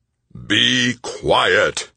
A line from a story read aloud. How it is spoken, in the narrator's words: Stoner bellowed